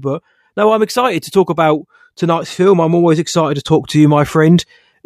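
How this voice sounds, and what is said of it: Hoarse voice. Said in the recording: “I've got a bit of a hoarse throat because I've been screaming ... I've had a bit of a cold this weekend”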